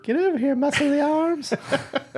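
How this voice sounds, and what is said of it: Creepy old man voice. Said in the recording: “I do a pretty good accent or a pretty good voice for the ... old, for the old pervert.”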